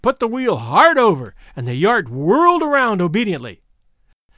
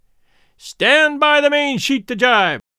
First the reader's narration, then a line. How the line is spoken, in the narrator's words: Charlie shouted